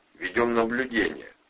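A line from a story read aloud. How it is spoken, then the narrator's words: Cheerful lie. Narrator (Russian): бодро соврал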